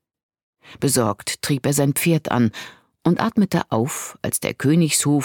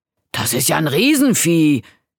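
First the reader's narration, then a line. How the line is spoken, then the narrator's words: Calling out. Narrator (German): rief er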